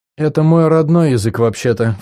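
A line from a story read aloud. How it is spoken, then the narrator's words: Snort then sigh. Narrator (Russian): фыркнула она и вздохнула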